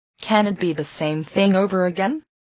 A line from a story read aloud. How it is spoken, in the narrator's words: he asked